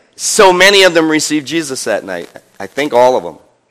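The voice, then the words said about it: Speaks with a noticeable accent. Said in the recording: “I still have my accent, sorry.”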